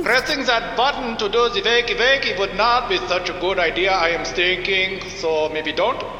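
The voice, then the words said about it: Put-on German accent. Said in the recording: “You are sounding a little bit German.”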